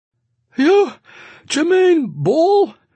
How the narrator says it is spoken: gasping for breath, because he had just walked up the stairs

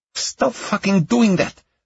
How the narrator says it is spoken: the woman snapped, shattering the silence

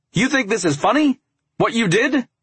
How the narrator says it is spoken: His voice raised

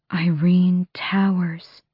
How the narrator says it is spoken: the queen breathed

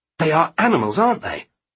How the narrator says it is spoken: Taylor spat

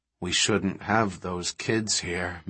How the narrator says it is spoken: Malcolm said gloomily

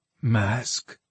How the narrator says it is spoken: Nieris mumbled

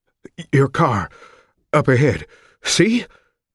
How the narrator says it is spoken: Elton panted

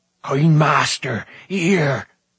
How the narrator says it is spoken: Gergi called excitedly

